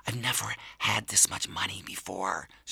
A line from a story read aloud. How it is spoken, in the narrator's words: whispered